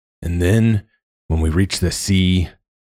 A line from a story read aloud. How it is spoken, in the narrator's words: Deckler sighed